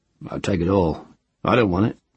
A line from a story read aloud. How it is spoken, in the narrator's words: said in a low voice